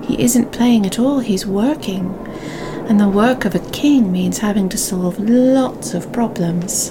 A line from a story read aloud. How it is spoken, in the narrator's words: said Queen Eleanor sadly